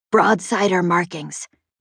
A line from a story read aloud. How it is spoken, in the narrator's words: Chet whispered to me